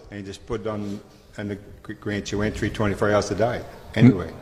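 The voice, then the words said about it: Speaks with a noticeable accent. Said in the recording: “I love hearing your accent”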